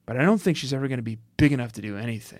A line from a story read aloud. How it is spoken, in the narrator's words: He finished his speech by mumbling